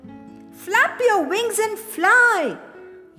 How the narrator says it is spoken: yelled Jake

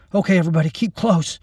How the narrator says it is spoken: Randy said, his voice curiously dead in the fog

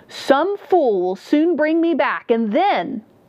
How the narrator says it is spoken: he cried out as the river took him under

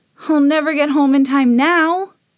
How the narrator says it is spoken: groaned Jimmy

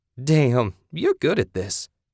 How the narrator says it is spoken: Kathy exclaimed

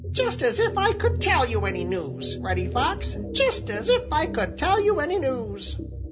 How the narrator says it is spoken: he exclaimed

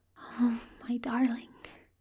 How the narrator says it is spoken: Aziraphale whispers

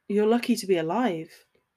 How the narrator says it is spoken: he said gravely

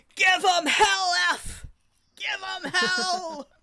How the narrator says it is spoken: I was screaming

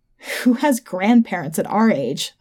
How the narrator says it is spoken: I laughed

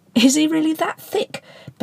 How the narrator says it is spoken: Ben shouted at Potty

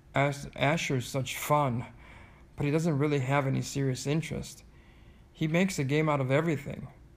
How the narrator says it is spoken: father chuckled

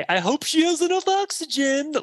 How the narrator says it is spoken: they psychotically laugh and say

